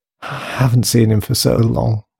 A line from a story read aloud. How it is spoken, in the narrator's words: she sighed